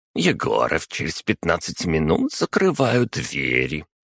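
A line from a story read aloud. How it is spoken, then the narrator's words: Grumbling. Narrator (Russian): проворчала комендантша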